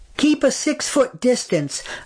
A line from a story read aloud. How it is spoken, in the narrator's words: a goon barked